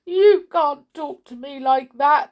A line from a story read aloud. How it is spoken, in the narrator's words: sobbed the king